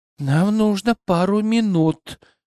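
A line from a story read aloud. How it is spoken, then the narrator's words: Whispered. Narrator (Russian): прошептала Сил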